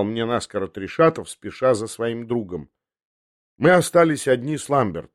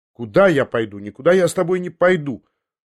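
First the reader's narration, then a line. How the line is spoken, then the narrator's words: Hasty defiant shout. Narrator (Russian): поспешил я крикнуть с вызовом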